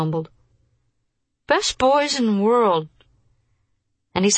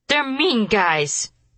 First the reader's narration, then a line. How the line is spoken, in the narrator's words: he cried angrily